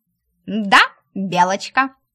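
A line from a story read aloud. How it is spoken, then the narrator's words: Snorting, mocking. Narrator (Russian): фыркнула рыжая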